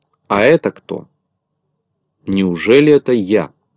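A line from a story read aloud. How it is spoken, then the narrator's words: Stern question. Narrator (Russian): строго спросил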